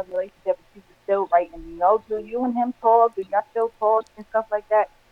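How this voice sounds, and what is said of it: New York accent. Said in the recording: “I'm catching her accent. ... she's New Yorkian. ... Y'all say y'all words real strong up north.”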